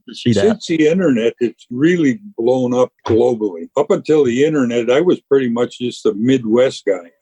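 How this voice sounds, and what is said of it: Upper Midwest American accent. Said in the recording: “someone from the Upper Peninsula in Michigan ... you would fit in probably pretty well in rural Mississippi down here, except for your accent.”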